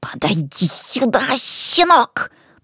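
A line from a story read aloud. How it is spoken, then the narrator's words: Angry hiss. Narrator (Russian): прошипел злобно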